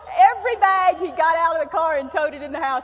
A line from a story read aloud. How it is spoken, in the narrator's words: he laughed